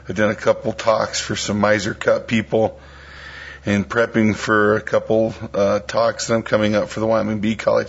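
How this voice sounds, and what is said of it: Worn, hoarse voice from illness. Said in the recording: “I'm a little down underneath the weather ... my voice is a little shot”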